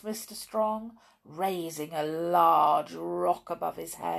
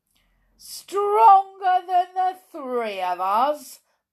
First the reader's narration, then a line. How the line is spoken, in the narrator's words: boomed the biggest ogre